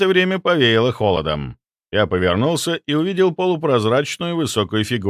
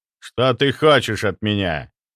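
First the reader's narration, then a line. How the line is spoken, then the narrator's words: Rude, through closed lips. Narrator (Russian): не открывая рта и чуть скривив губы, грубо спросил он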